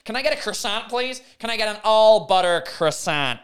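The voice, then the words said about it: Imitated American accent. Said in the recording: “if you're American, you'll say a croissant”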